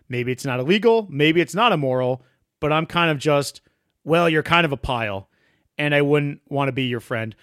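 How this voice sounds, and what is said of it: Western Massachusetts accent. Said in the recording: “being a stupid Western Massachusetts mushmouth, that's me already ... the accent ... the authenticity just straight from the cuff”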